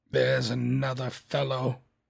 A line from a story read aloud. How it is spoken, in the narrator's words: muttered Scrooge